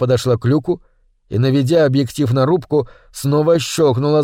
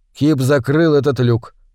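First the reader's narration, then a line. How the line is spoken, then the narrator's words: Muffled, hollow voice. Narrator (Russian): глухо проговорил Мур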